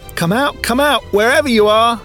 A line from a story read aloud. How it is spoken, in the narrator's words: yelled the tiny aircraft